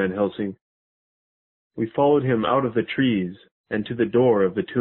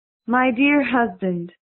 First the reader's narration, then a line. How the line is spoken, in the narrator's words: she said in a sweet voice